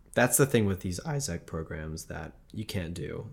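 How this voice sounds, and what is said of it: Hoarse, fading voice. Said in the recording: “losing my voice completely”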